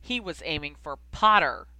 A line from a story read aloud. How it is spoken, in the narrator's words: Malfoy spat